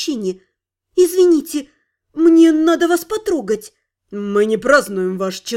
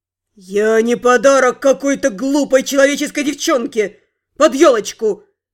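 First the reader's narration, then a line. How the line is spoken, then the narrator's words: Growl. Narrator (Russian): прорычал Сид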